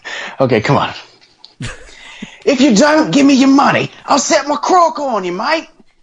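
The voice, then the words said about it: Australian accent impression. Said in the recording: “Give me your Australian accent. ... Well, more like a Steve Irwin impression. ... Not the worst one I've heard. That's pretty good.”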